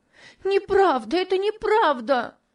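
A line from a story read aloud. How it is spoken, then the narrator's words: Screaming, sobbing loudly. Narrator (Russian): кричала Топси, громко рыдая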